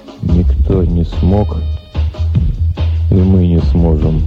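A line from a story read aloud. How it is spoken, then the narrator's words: Dull, muffled voice. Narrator (Russian): глухо проговорил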